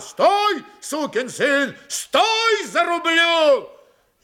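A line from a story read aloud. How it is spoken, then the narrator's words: Yelling from afar. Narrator (Russian): Григорий еще издали заорал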